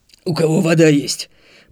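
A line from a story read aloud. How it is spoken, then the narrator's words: Hoarse rasp. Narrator (Russian): прохрипел Марк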